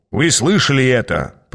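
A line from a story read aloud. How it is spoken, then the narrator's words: Grumbling. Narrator (Russian): проворчал Аас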